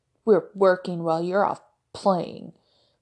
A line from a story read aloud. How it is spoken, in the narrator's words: Brody grumbled